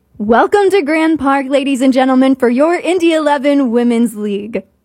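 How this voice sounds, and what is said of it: Stadium PA announcer voice. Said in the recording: “announcer voice ... Hear my announcer voice ... I'll be the PA announcer”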